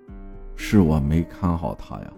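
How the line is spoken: Sighing, muttering repeatedly. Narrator (Chinese): 唉声叹气，然后还反复嘀咕

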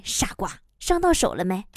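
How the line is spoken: Gentle husband. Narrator (Chinese): 老公呢也都会温柔的说一句

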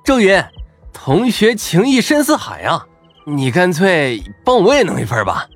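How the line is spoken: Envious chuckle. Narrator (Chinese): 张胖子眼热了，嘿嘿笑道

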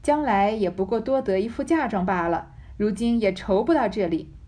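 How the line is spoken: Laughing. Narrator (Chinese): 宝钗笑道

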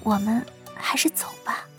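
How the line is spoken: Low voice. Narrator (Chinese): 顾嫣嫣 低声说道

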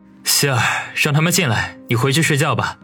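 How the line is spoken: Deep, steady voice. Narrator (Chinese): 深吸一口气，他沉声的说道

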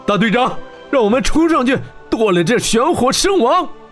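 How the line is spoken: Grief-stricken furious shouting. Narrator (Chinese): 悲愤无比的火鸟骑士，几名队长围着温莎喊道

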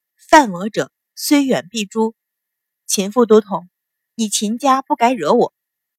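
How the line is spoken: Calm, indifferent. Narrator (Chinese): 阮云欢淡淡道

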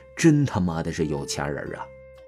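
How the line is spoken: Exclaiming. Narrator (Chinese): 王峰忍不住感叹一句

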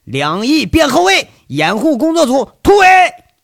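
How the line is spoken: Shouting. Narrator (Chinese): 杨伟大喊

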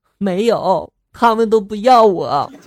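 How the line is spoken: Mournful little brother. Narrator (Chinese): 弟弟一脸哭丧着就说了

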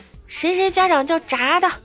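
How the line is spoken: Shouting. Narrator (Chinese): 班主任在全班面前就喊

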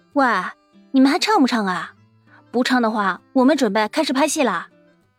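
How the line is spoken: Deliberate shout. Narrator (Chinese): 乔小萌故意冲着外面那些人喊道

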